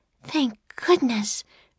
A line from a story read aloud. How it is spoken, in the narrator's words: breathed Annie